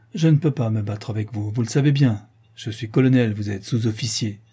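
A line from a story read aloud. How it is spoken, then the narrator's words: Cold. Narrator (French): Le colonel Germain, froidement, à Albert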